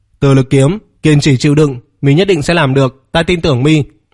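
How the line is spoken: Loud, powerful shout. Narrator (Vietnamese): Vương Triệt quát to, cực kỳ có lực

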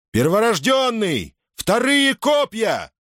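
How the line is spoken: Shouted command. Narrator (Russian): приказал Юлий, выкрикнув это распоряжение вправо и влево

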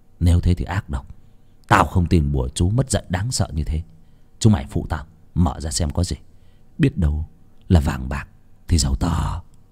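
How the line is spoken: Muttering. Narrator (Vietnamese): Việt lẩm bẩm

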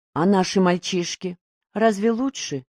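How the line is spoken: Quiet question. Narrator (Russian): тихо спросила Маня

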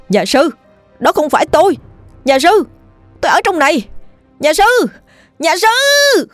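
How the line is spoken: Loud desperate shouting. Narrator (Vietnamese): Cậu hét lớn

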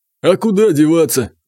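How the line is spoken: Sighing. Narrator (Russian): вздохнул Соловей

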